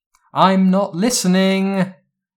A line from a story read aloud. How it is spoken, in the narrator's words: Daphne shouted in a sing song voice